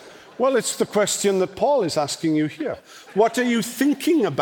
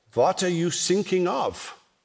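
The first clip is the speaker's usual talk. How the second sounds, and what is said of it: Pronounced German accent. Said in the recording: “in very pronounced German accent”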